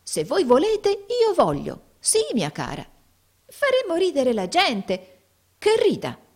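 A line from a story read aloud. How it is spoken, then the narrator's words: Lively exclamation. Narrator (Italian): esclamò Tim vivamente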